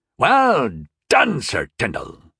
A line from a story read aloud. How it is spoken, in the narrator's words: Baston boomed